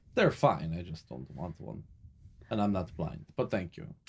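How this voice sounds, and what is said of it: Put-on vaguely German-Russian accent. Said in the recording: “Can't place your accent, but sounds interesting. ... It's vaguely German. ... Seems to kind of drift between the German and the Russian a little. Because ... is not a talented voice actor.”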